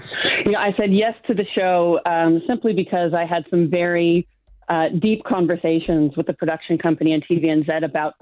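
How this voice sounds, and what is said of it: Non-New Zealand accent. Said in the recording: “You can tell from my accent, I'm not originally from New Zealand”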